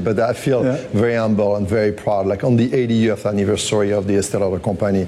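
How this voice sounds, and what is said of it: French accent. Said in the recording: “my French accent”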